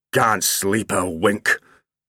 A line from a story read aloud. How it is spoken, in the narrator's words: growled Grumble to his daughter and granddaughter, as though it were their fault